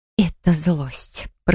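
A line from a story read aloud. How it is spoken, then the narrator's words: Hiss. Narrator (Russian): прошипела я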